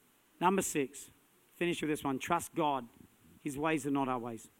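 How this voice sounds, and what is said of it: Usual voice. Nothing is said of it.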